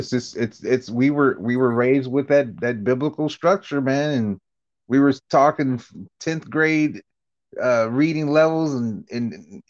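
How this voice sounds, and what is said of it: Indiana accent. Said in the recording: “You still got the Indiana accent”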